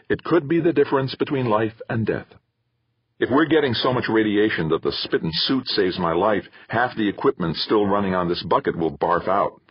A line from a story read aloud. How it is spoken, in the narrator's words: Theo said sharply